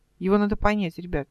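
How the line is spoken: Calm. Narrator (Russian): спокойно продолжала Эл

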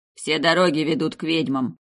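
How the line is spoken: Grumbling. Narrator (Russian): проворчал Виндоухард-младший

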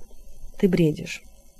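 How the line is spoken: Quiet. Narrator (Russian): сказал он тихо

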